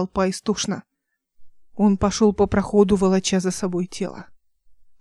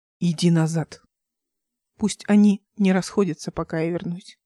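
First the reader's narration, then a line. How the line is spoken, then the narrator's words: Indifferent, less commanding tone. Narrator (Russian): сказал он менее повелительным, равнодушным тоном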